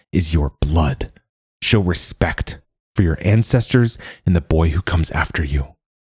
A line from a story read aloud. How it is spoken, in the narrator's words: hisses